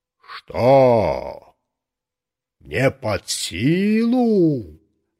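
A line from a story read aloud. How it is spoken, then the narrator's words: Booming voice, close by. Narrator (Russian): над самым моим ухом прогремел голос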